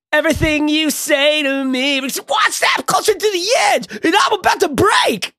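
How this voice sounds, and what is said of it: Sings imitating another person's voice. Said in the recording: “That's pretty good. It's a pretty good impression.”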